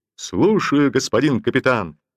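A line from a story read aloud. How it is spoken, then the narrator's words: Cheerful bark. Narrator (Russian): весело гаркнул Лбов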